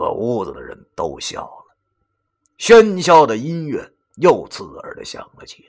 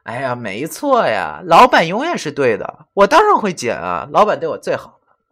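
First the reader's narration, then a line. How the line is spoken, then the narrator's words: Sweet, coy girl. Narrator (Chinese): 那个卖泳裤的女孩顿时甜甜一笑，对着袁梅娇滴滴的说道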